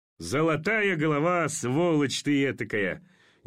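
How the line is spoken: Forced, vain laughter. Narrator (Russian): Неестественно и самолюбиво засмеялся Орлов

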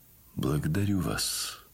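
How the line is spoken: Quiet, sad. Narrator (Russian): сказал он ей тихим и печальным голосом

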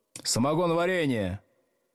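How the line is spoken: Shouted from front desk. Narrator (Russian): крикнул с первой парты Старков

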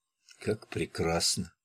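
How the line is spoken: Whisper. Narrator (Russian): прошептала она

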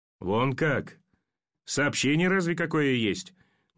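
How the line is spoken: Incredulous chuckle. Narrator (Russian): Недоверчиво хохотнул пулеметчик

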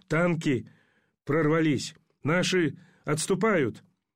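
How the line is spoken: Delirious hoarse rasp. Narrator (Russian): Солдат с серым птичьим личиком блуждающе оглянулся в беспамятстве, прохрипел

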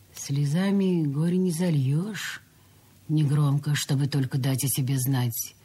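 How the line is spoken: Plain. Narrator (Russian): сказала Василиса

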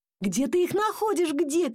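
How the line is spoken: Father shouting. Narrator (Russian): кричал папа

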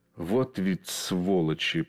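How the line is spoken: Hissed. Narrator (Russian): прошипел он

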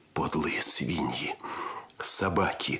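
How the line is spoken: Growl. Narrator (Russian): рычал Андрес

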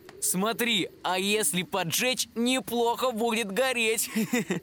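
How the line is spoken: Brazen laughter. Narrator (Russian): Главарь нагло расхохотался

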